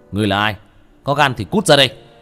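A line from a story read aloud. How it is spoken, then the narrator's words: Shout. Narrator (Vietnamese): Tiểu Thất quát lên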